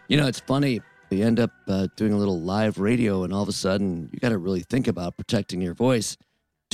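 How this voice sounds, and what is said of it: Hoarse, strained voice. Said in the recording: “Losing my voice a bit”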